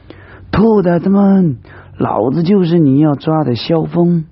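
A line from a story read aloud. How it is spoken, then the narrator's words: Shouting loudly. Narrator (Chinese): 他冲着下面的国民党士兵大喊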